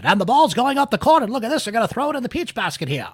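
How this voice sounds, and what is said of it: Old-timey radio announcer voice. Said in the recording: “I should break up my old-timey radio voice on that.”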